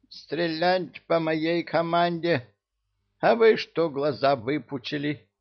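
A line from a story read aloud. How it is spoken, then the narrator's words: Menacing squeak. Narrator (Russian): грозно пискнул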